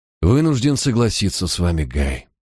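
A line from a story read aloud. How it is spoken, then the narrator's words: Sad. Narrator (Russian): печально кивнул я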